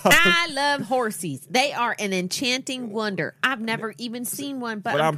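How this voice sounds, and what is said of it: Southern American accent. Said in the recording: “I did a southern accent, not on purpose.”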